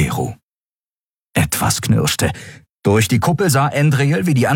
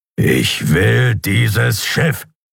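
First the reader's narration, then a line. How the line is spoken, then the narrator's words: Growled. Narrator (German): knurrte er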